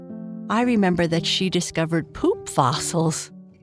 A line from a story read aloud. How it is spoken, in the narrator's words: Bernice said with a laugh